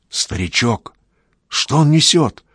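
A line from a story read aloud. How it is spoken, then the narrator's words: Whispered question. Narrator (Russian): шепотом спрашивает у Макса Эрик Иванов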